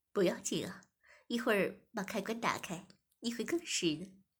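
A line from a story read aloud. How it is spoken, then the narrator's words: Smiling. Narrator (Chinese): 店主笑盈盈的说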